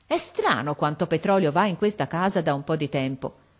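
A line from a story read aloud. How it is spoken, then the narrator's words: Exclaimed. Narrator (Italian): uscì in questa esclamazione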